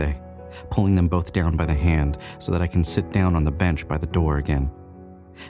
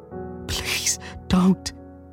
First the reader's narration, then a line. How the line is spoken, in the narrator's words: says Susan, her voice high and quivering despite its low volume